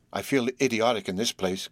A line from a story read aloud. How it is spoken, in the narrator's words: confessed Horace, looking round him nervously